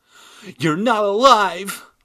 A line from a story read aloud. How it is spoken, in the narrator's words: I cried, taking the stairs two at a time